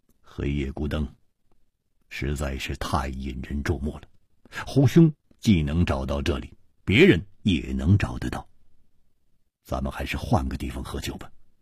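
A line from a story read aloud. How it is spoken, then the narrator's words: Low, deep voice. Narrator (Chinese): 戴独行 沉声说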